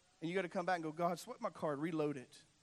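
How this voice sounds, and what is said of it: Loud, strained voice with a cold. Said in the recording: “lose my voice. I've been battling a cold and I'm yelling,”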